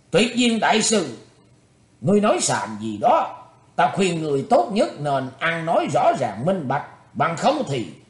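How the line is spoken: Furious shout. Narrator (Vietnamese): Địa Sát Thường Thế Châu quát mắt nộ khí quát lên

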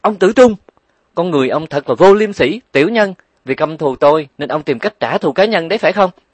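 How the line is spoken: Loud shout. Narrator (Vietnamese): Nàng hét lớn

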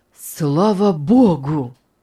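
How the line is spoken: Relieved exclamation. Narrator (Russian): наконец воскликнул Артур

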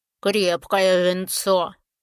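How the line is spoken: Pleased grumble. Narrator (Russian): пробурчал довольный трог

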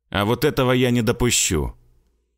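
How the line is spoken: Calm and firm. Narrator (Russian): Спокойно и твердо сказал Славик

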